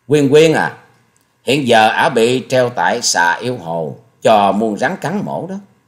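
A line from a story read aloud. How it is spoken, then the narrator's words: Sneering, slow speech. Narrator (Vietnamese): Hà Xà Tiên Tử cười khẩy, rồi giọng chậm rãi nói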